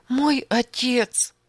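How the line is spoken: Sobbing. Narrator (Russian): всхлипывала она

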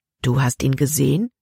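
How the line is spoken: Plain. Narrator (German): fragte Caleb

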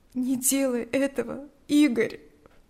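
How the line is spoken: Pleading. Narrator (Russian): взмолилась Лика

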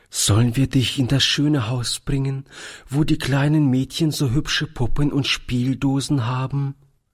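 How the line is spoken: Trembling question. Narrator (German): fragte Toni mit zitternder Stimme

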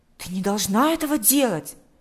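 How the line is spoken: Boy's troubled exclamation. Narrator (Russian): воскликнул Миша, и его ясное мальчишеское лицо вдруг затуманилось

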